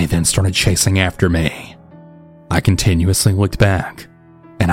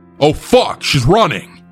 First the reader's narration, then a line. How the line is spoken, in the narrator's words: him yell